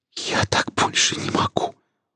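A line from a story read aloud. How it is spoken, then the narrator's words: Trembling whisper. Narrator (Russian): прошептала девушка, дрожа всем телом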